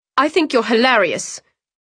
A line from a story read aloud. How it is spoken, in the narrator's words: Sienny spat